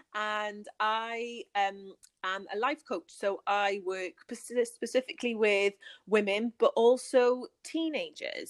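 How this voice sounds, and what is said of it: British accent. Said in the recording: “So I'm from the UK, if you can't guess from my accent.”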